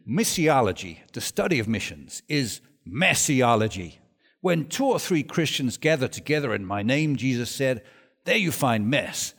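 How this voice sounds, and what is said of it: American accent imitating George Verwer. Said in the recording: “it's an American accent I'm trying now”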